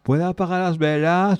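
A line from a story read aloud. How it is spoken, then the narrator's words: Shouted, several voices. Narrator (Spanish): gritaron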